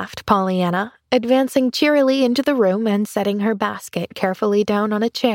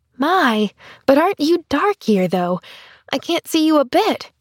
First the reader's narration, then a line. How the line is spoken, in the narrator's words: she cried